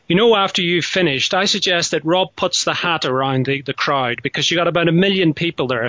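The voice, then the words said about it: Irish accent. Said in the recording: “I'm hearing the accent. ... It's from Ireland originally”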